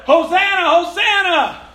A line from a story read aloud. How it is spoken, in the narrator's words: they were shouting